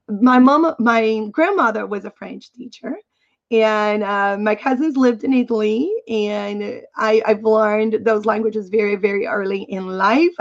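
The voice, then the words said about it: Non-native English accent. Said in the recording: “English is not my first language, and you probably know, you found that out because of my accent.”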